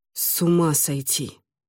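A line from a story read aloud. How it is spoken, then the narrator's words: Relieved mumble. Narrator (Russian): Радуясь возможности избавиться от неловкости, пробормотал он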